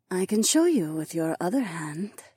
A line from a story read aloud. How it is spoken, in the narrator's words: Jessamine breathed